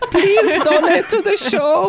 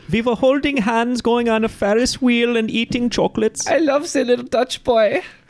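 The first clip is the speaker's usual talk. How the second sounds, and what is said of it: Bad put-on Dutch accent. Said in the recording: “My accent is even worse than Dutch Boys. I don't know where I'm from.”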